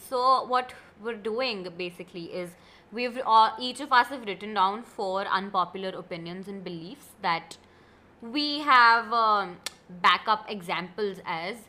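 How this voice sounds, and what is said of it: Voice affected by a cold. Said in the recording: “please don't mind my voice. I have a little bit of a cold. ... Not COVID, just a little bit of a cold.”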